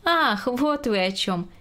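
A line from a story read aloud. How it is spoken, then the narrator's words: Expressive. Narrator (Russian): выразительно произнесла Грета Максимовна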